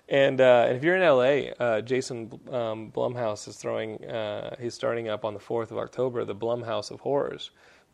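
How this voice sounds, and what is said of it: Texan accent. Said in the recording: “my Texan accent”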